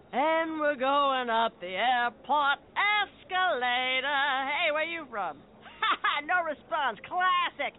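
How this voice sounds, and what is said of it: Traveling lounge singer character voice. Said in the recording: “my impression of a traveling lounge singer”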